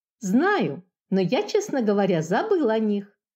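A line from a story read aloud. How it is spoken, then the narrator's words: Calmer reasoning tone. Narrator (Russian): Уже более спокойно рассуждал Антошка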